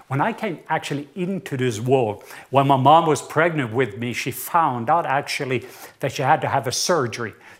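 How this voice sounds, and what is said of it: Norwegian accent. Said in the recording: “I do have an accent. And yes, it is a southern accent. ... I am from the south part of Norway.”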